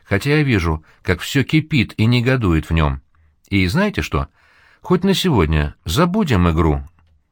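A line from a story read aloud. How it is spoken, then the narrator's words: Calm. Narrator (Russian): спокойно говорит Гамали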